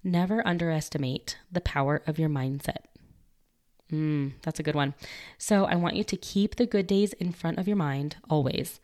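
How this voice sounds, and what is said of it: Weak, fading voice. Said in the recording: “my voice is kind of trying to go away because of all of this pollen floating around ... My allergies are killing me right now”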